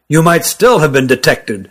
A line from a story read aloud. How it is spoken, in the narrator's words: growled Rugum